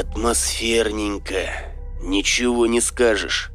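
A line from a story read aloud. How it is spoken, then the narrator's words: Breathless exhale. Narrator (Russian): выдохнул Серега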